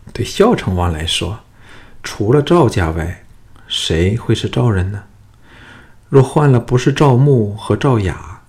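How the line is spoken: Soft, gentle voice. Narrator (Chinese): 龙阳君柔声说

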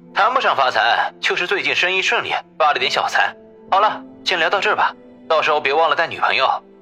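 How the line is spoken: Hearty laughing. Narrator (Chinese): 李海涛哈哈笑道

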